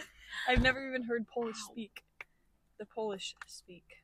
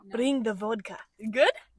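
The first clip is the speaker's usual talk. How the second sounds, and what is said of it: Imitated Polish accent. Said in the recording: “have a Polish accent ... I mean, kind of.”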